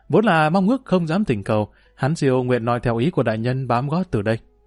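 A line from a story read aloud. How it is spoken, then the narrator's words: Smiling reply. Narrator (Vietnamese): Ngũ Hán Siêu mỉm cười, đáp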